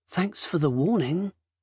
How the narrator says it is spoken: said in a lowered voice, wincing at the pain

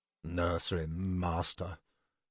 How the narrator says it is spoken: he mumbled aloud

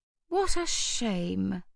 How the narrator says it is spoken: Hetty said with a sigh

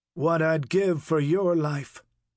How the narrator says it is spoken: he said

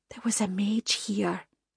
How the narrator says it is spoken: Isla said quietly

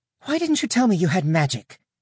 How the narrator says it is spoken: Abrianna snapped

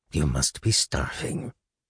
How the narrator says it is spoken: Concerned, he mumbled

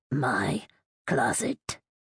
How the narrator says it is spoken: It held tight and hissed

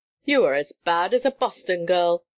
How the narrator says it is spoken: laughed Bright

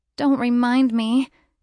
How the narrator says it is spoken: she groans

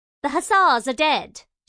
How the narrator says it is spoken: snapped

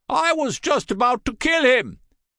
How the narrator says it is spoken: yelled

